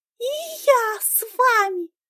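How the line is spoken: Girl yelling. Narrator (Russian): завопила девчонка

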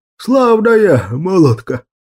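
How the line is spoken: Hoarse drunkard. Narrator (Russian): прохрипел какой-то пьяница

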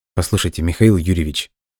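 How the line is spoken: Quiet speech. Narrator (Russian): тихо произнес

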